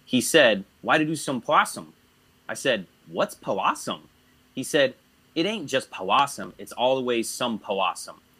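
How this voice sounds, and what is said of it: Reading aloud in put-on dialect accent. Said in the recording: “I'm going to try to do the accents, because I think that it's the only way that you can kind of understand it ... accent forgival is being granted ... The accent safe zone.”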